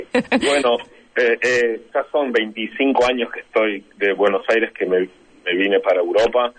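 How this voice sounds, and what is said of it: Strong Argentine Spanish accent. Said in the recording (Spanish): “su super acento argentino, que es maravilloso”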